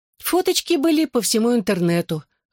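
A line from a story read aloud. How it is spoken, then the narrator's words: Sighed. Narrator (Russian): вздохнула Шелли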